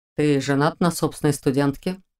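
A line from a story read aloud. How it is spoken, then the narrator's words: Calm statement. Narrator (Russian): Спокойно заявил он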